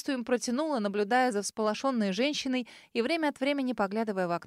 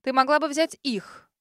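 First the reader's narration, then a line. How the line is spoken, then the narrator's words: Sudden declaration. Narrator (Russian): вдруг заявила миссис Джоан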